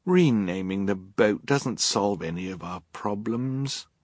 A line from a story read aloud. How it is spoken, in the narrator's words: Violet said wearily